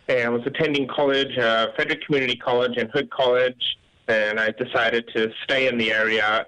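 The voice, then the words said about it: British accent. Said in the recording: “you do have an accent ... I'm originally grew up in the United Kingdom.”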